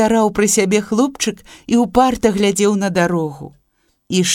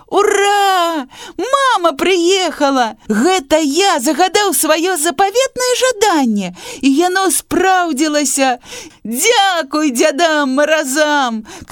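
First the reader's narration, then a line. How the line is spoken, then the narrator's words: Joyful shout at full voice. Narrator (Belarusian): крычаў Саша ва ўсё горла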